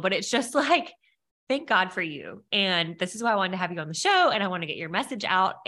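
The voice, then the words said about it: Emotional, teary voice. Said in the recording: “now I'm like tearing up. Why am I crying? I just like almost start crying ... getting emotional ... your tears”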